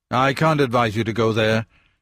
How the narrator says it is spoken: said in a harsher voice than he intended

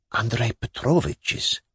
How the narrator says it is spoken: brought out in a confidential whisper

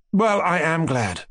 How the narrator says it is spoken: Mushkin sighed joyfully

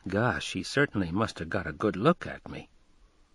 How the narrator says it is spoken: muttering to himself

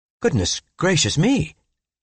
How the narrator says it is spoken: I exclaimed

